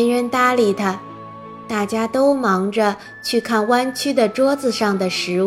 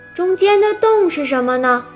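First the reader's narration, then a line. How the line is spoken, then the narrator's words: Admiring. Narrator (Chinese): 康妮不由得赞叹道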